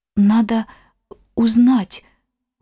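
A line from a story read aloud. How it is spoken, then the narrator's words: Forced out with effort. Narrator (Russian): выдавила она через силу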